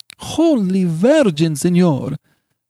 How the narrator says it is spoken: cried old Dame Lisabetta

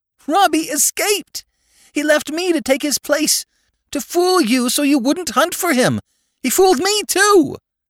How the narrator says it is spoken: screamed the child, nastily, sobbing

